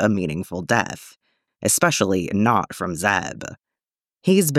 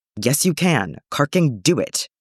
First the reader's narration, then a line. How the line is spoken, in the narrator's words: Callus snaps